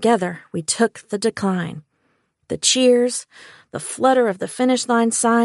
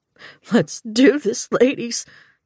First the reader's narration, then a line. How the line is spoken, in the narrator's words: Gus said, his voice cracking